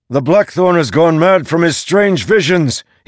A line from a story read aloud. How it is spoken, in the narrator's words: shouted